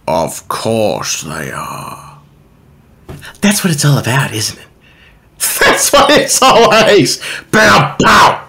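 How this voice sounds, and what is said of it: Jim Carrey's Grinch impression. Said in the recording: “finish off this year's final podcast with an impersonation of one of my favorite Christmas characters, the Grinch... This is the Jim Carrey's version of the Grinch”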